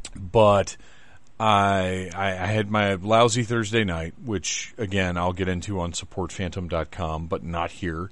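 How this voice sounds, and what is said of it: Tired, worn-out voice. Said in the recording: “I'm very tired, and my voice is not totally recovered”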